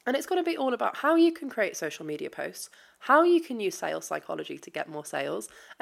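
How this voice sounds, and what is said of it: British accent. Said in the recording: “if you hadn't noticed by my accent, I am in the UK”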